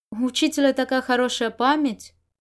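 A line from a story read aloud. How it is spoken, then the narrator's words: Muttered. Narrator (Russian): Можань пробормотал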